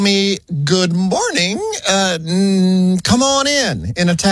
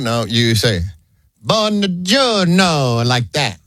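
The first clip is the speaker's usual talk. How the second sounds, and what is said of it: Exaggerated Italian accent like Mario. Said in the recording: “doing a Mario impersonation”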